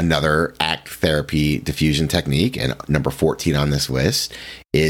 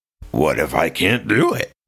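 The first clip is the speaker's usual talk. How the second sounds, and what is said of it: Silly put-on cartoonish voice. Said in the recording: “speak your anxious thoughts in a silly voice ... any different voice, like a foreign accent, Cookie Monster, Elmo ... in a silly voice ... I know that was super weird”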